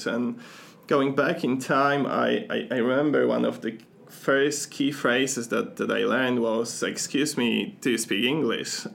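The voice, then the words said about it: Non-native English accent. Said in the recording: “you'll probably sound from my accent that English is not my first language”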